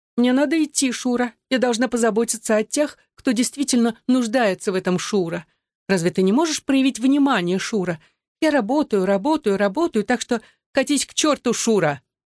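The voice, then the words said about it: Thin, mocking mimicking voice. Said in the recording (Russian): “Он заговорил тонким голосом, передразнивая ее.”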